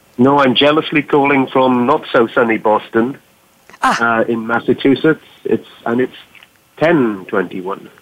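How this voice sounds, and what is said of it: Welsh accent. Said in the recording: “as you can probably tell, I'm not from Boston, Massachusetts... I have the original Boston accent. I'm from Wales in the UK.”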